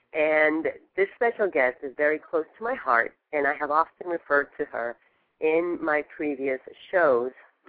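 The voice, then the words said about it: Slightly hoarse voice. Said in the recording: “some of you may hear me a little hoarse, but however, this is just the season”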